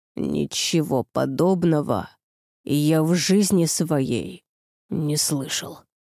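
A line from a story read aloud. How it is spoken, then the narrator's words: Hoarse wheeze. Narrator (Russian): прохрипел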